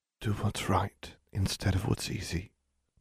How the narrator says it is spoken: he said softly

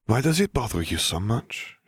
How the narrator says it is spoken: She murmured

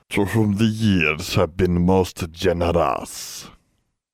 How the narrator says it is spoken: he wheezed

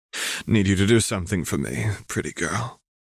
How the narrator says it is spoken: Vriska sighs

